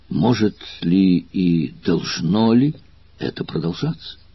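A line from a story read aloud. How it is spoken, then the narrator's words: Plain. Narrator (Russian): спросил Квинт Курион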